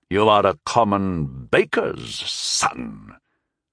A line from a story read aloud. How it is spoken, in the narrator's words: the war bird of Westphalia said with a sneer